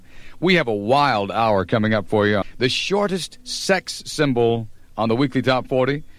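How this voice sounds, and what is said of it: Announcer-style radio voice. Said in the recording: “doing my radio voice”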